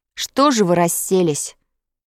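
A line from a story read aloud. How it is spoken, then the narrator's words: Indignant. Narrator (Russian): возмущенно сказал Петя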